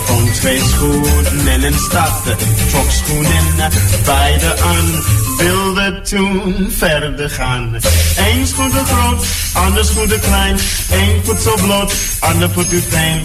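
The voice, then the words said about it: American accent singing in Dutch. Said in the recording (Dutch): “Amerikaans accent”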